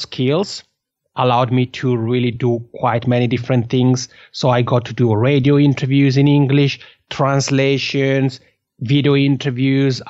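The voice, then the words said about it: Italian-Swiss accent in English. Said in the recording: “as people can tell, I have an accent. So my macaroni accent comes from the fact that I'm from the Italian-speaking part of Switzerland. So Italian is my mother tongue”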